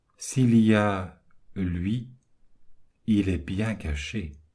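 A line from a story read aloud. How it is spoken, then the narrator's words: Murmur, almost aloud. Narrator (French): Il s'entendit murmurer presque à voix haute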